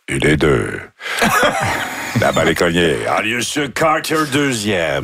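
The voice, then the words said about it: Imitates a baseball announcer's voice. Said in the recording (French): “Jacques Doucet est décédé aujourd'hui et. Comme c'était une voix connue, je me suis dit, vous avez déjà dû l'imiter ... C'était facile de savoir qu'on était au baseball parce qu'on entendait...”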